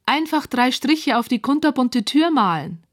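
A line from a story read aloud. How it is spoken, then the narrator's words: Calling out. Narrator (German): ruft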